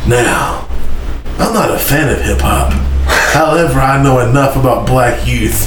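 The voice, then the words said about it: Put-on sexy, seductive reading voice. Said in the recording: “I'm going to read this with my sexy voice ... Sexy voice.”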